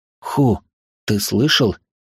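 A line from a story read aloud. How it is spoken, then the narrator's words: Quiet question. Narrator (Russian): тихо спросил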